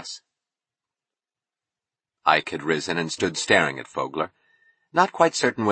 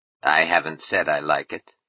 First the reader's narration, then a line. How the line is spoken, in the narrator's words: Vogler answered coldly